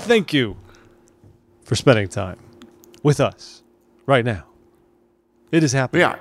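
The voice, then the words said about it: William Shatner impression. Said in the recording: “my Bill Shatner impression”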